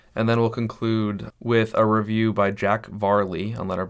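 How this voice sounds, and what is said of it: Usual voice. Nothing is said of it.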